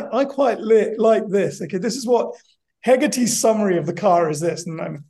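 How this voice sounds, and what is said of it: Usual voice. Nothing is said of it.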